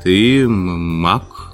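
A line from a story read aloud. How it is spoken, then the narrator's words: Confused stammering. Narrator (Russian): От растерянности Андрюха даже заикаться начал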